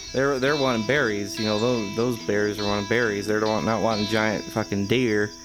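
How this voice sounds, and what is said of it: Drawling accent. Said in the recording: “I'm getting to this drawl. ... her drawl coming back”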